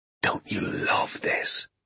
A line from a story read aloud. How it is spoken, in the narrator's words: he whispered to me